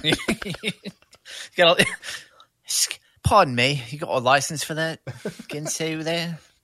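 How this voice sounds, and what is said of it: Bad put-on English accent. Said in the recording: “horrible English accent”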